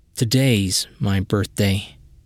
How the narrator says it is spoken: he whispered

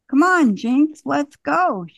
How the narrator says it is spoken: she cried

